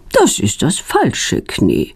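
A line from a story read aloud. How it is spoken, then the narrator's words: Calm. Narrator (German): sagt ruhig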